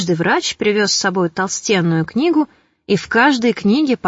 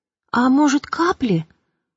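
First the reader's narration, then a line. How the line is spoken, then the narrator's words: Timid. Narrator (Russian): робко вставил какой-то безвестный лекарь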